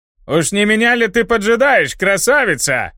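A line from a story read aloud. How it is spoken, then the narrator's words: Shout. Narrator (Russian): крикнул он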